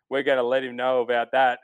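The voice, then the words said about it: Thick Southern accent, Ryan Palmer impression. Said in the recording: “Palmer with that, that southern, thick southern accent”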